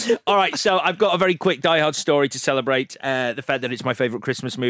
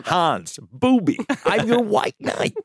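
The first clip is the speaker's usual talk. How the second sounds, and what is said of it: Impression of a film character's voice. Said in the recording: “That's a good Ben Ellis impression. ... Why does he sound like Christopher Walken? ... Christopher Walken. Did it again.”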